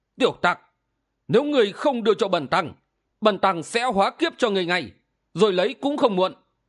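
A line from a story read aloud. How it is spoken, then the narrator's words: Angry. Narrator (Vietnamese): Ảo ma Đầu Đà y tức giận, nói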